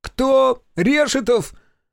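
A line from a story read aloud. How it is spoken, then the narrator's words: Unexpectedly shrill voice. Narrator (Russian): Неожиданно визгливым для такой комплекции голосом полоснул верховой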